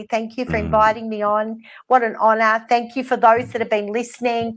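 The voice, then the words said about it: Strong Australian accent. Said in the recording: “my Australian accent because it's pretty strong”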